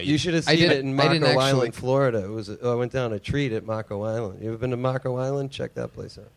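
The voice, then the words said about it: Boston accent. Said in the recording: “You have a Boston accent.”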